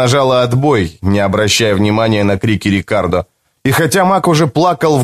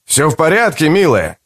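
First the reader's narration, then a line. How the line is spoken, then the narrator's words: Shouted. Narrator (Russian): крикнул ей кто-то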